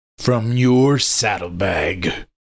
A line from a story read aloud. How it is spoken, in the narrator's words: I growled